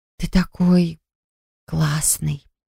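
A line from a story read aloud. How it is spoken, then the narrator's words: Spellbound whisper. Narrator (Russian): прошептала, завороженно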